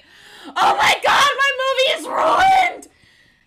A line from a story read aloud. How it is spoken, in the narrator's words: Spencer screams in agony